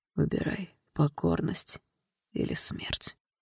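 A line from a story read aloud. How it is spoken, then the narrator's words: Quiet whisper. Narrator (Russian): тихо шепчет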